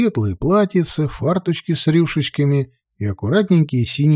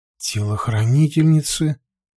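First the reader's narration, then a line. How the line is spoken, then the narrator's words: Confused asking again. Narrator (Russian): переспросил я, растерянно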